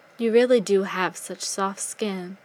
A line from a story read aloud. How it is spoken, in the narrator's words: he murmured